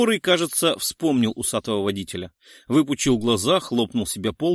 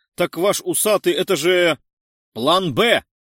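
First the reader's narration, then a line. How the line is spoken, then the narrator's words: Shouted. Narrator (Russian): выкрикнул высокий охранник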